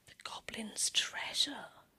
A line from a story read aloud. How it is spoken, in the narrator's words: Snow White breathed